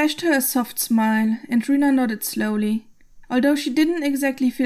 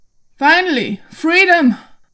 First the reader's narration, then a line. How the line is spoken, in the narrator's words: Logan cried out